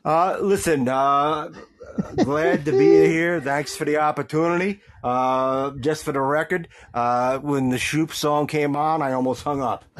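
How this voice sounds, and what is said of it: Long Island accent. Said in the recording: “you can hear that beautiful Long Island accent that he's got.”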